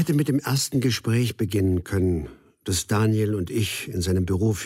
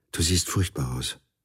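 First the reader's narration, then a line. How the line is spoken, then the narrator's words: Quiet, to herself. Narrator (German): sagte sie leise, wie zu sich selbst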